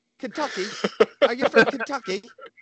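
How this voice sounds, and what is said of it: Attempted British accent. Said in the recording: “will you say that in a British accent for me? ... What do you want me to say in a British accent?”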